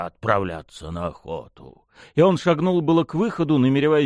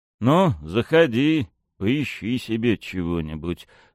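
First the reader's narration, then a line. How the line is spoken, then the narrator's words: Dry, cool. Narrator (Russian): сухо продолжил волк-отец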